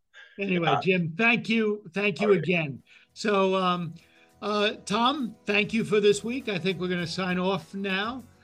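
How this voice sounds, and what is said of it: Bronx New York accent. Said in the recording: “my Bronx accent ... I definitely hear the sound”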